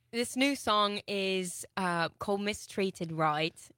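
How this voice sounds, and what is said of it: Put-on Australian/British accent. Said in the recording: “It's kind of Australian. ... this is totally an Australian accent. ... You can shelf the British accent.”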